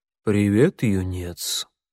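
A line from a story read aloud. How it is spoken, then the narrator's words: Cat's purring voice. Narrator (Russian): промурлыкал белый кот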